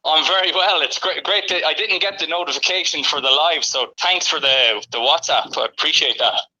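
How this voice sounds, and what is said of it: Charming foreign accent. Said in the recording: “your charming accent”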